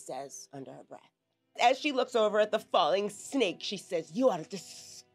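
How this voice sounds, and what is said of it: Speaks in a put-on accent. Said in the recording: “disgusting in an accent ... That does not sound anything like she's ever said”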